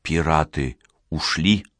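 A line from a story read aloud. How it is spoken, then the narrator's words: Whispered question. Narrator (Russian): Борис, на которого беззвучное появление Спиридона произвело сильное впечатление, спросил шепотом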